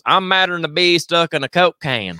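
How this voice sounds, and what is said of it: Put-on Southern accent. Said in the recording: “I got to read this in an accent, of course.”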